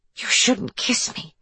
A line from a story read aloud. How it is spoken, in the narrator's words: she whispered